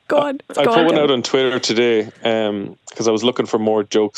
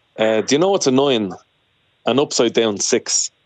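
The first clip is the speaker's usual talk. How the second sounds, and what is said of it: Put-on Dublin accent. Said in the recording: “it has to be said in a Dublin accent.”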